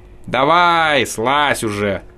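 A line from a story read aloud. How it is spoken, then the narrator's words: Grumble. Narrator (Russian): проворчал Пафнутич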